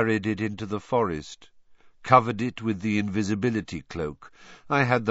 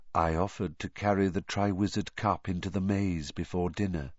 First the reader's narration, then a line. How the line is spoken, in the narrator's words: whispered Barty Crouch